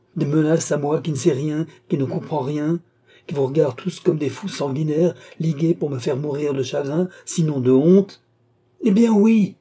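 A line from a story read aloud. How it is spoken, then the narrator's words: Exclamation. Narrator (French): s'écria Philippe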